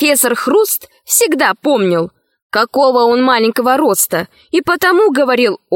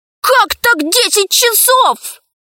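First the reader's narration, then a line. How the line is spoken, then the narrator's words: Very loud exclamation. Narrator (Russian): воскликнул Пашка так громко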